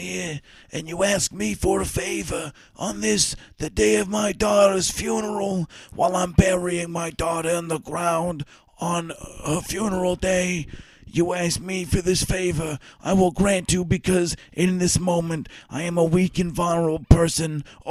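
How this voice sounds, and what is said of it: Godfather-style mobster impression. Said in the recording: “Was that a good impression or what? ... you were just doing The Godfather, but funeral instead of wedding.”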